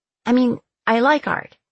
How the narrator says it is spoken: I stammered

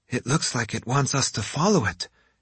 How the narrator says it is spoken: Yumiko observed

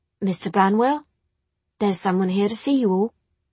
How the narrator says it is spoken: said, hesitantly

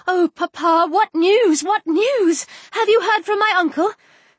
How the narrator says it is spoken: eagerly cried out

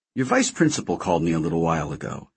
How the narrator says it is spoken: she said

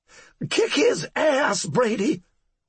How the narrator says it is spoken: Cora repeated, her voice resembling the screech of a buzzard fighting over a corpse

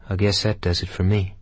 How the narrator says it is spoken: he said quietly, as if speaking to himself

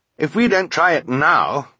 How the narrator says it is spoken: Violet said grimly

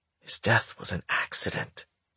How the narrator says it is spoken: she whispered in anguish

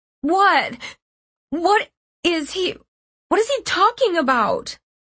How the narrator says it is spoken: One of the younger kids began to cry loudly behind me, asking in a panicked, confused voice

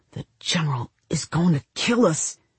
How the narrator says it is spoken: Tom, the eldest, muttered

